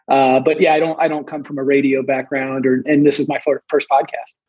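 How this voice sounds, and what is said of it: Soft-spoken, monotone voice. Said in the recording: “I have a more soft-spoken, some people even complained it's a monotone voice”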